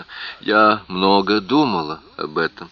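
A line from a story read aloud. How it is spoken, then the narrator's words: Even, level voice. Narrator (Russian): ответила она ровным голосом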